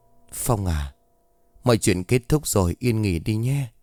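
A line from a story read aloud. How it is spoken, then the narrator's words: Muttering. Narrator (Vietnamese): Kiều lẩm bẩm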